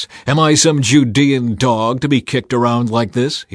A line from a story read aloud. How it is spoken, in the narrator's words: he shouted